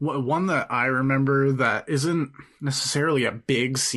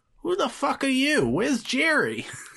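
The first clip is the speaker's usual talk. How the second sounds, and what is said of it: Good Steve Buscemi impression. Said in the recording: “That's a really good impression, actually.”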